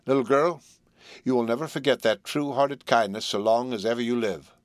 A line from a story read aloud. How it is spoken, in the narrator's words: He said quite calmly